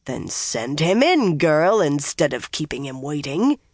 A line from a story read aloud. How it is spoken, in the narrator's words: Elida growled